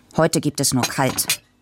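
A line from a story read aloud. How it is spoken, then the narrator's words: Grumpy father. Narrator (German): sagte Papa brummig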